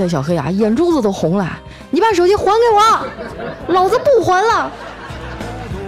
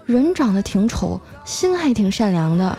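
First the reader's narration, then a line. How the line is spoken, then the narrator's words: Quiet muttering. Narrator (Chinese): 那妹子啊小声的嘀咕了一句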